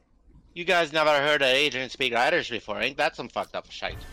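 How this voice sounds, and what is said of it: Put-on Irish accent. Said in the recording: “That was a very that was a very Asian Irish accent”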